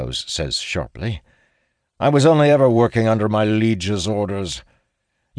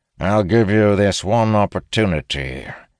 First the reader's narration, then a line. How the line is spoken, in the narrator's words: he says in a gruff voice